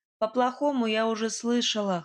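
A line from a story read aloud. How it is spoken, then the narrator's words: Scoffed. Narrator (Russian): хмыкнула я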